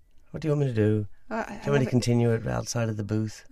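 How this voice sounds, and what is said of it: Put-on Irish accent, higher, sing-song. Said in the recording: “In your Irish accent. ... keep going ... it was pitched higher than you normally speak as well ... it's a very sing song kind of accent ... They always go up and down.”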